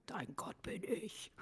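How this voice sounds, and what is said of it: Half-growled, creepy deep voice. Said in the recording (German): “mit der Stimme ... das war ja nun halb Growl ... in so einer gruseligen Stimme”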